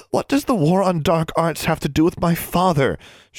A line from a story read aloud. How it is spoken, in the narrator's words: she asked, struggling to keep her voice from rising hysterically